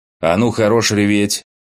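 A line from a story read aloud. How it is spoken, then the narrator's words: Angry bark. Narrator (Russian): Рявкнул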